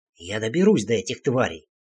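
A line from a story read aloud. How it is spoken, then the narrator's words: Hissing. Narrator (Russian): прошипел я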